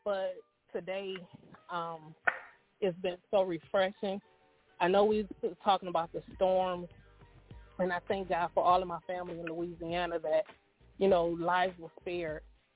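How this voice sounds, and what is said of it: Strained, sick-sounding voice. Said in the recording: “Sorry for my voice. I've been under the weather.”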